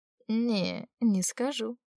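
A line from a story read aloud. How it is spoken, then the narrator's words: Contented drawl. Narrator (Russian): протянула я довольно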